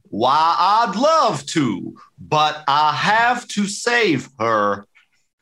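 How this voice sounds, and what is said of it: Put-on Southern American accent. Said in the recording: “the southern accent just ... doing an American accent, or is it part of the character?”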